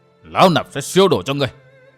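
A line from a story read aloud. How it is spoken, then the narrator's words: Thwarted hiss. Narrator (Vietnamese): Hàng Ma Tăng biết mục đích khó đạt, dụng tâm bại lộ, bèn rít lên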